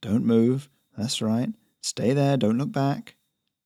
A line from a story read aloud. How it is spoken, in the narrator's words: he began to mutter